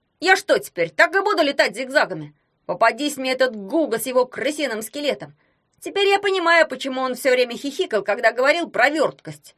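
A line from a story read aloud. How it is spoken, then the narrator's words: Shouting. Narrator (Russian): прокричал Ягун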